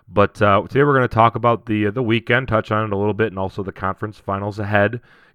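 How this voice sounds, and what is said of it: Under-the-weather, worn voice. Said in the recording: “you can hear it in my voice, still recovering from a Vegas weekend, a little under the weather”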